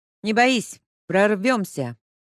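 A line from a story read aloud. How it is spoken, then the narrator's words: Loud announcement. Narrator (Russian): громко объявила Леська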